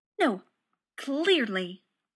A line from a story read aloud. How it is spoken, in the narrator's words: Rodney said bitterly